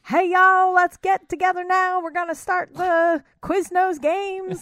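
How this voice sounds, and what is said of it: Exaggerated Southern US accent. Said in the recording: “Super southern accent.”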